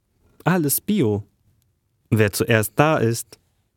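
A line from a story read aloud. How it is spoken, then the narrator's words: Laughing. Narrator (German): Lachend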